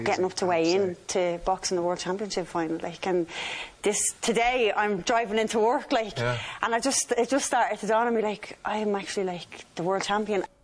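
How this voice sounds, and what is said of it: Staccato Dublin Irish accent. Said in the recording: “I'm thinking by the staccato nature that's a Dublin accent”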